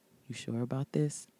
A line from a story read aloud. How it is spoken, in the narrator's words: asked softly